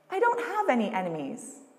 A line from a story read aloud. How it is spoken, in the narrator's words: replied, smiling sweetly